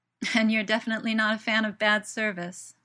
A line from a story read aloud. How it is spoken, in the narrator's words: Merlin laughs